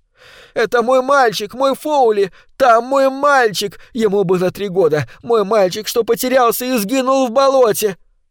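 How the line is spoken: Convulsive sobbing. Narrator (Russian): Она начинала судорожно рыдать

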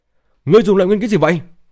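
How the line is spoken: Angry shout. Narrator (Vietnamese): Hàn Long thì tức giận hét lên

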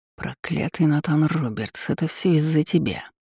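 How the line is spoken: Muttering. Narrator (Russian): пробормотал Лиарс

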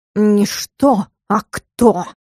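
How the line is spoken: Growling. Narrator (Russian): Зарычал Стикс

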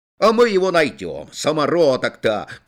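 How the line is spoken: Shouting. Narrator (Russian): кричал Мыльников

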